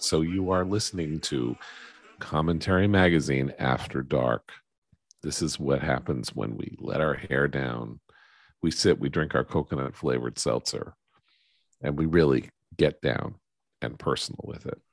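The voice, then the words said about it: Smooth late-night radio DJ voice. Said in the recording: “That's a good late night radio voice you've got going on.”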